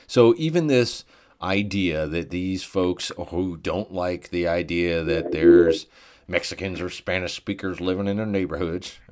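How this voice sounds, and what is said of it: Southern American accent. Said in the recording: “pardon my Southern accent”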